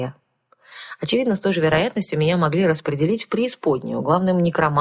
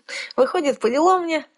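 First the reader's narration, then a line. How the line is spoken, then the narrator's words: Laughing. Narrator (Russian): рассмеялась я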